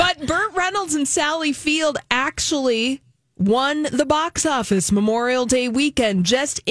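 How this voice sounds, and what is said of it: Usual voice. Nothing is said of it.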